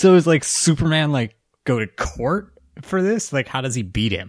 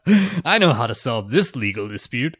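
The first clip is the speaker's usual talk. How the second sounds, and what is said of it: Superman character voice. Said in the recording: “my best Superman impersonation.”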